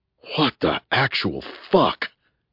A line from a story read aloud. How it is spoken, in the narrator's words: gasped Bunny